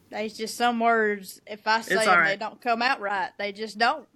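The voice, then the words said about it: Strong country accent. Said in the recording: “The country, the accent ... there's absolutely no put on to it ... it's constant”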